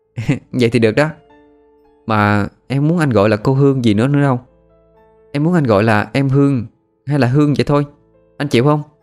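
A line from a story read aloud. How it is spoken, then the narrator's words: Gentle, smiling. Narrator (Vietnamese): Hương mỉm cười dịu dàng nói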